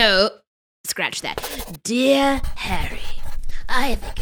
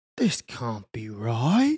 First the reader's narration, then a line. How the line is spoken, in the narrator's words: Harry muttered to himself